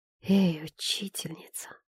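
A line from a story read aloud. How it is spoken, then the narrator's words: Whispered. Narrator (Russian): прошептал он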